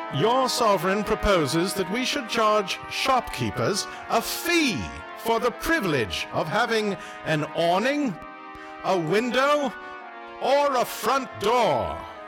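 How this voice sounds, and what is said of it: Grand, declamatory proclamation voice. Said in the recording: “in my proclamation voice.”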